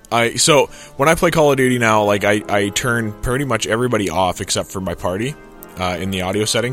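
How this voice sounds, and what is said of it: Sick, deeper than normal voice. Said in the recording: “I'm sick because my voice is, like, super deep than normal.”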